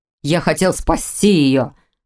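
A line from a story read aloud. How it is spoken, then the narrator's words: Near growl. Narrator (Russian): почти прорычал Ронан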